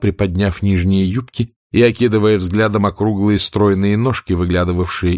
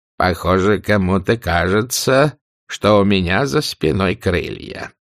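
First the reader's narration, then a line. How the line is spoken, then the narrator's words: Old nanny grumbling. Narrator (Russian): проворчала мамушка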